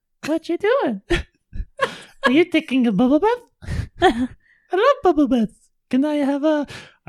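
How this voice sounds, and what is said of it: Child character voice, slight accent. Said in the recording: “I was getting a hint of accent. ... Is it a leprechaun? ... Sounds like he's from fucking Whoville.”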